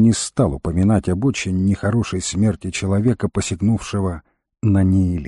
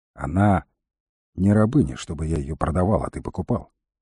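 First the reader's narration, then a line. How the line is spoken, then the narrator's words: Calm. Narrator (Russian): спокойно сказал волкодав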